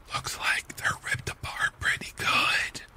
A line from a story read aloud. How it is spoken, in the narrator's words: says one in a whisper